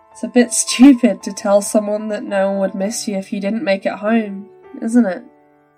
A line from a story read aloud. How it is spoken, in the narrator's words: Lynn chuckled through tears